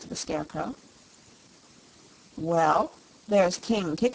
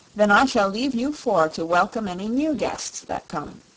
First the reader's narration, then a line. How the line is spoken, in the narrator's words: said Dorothy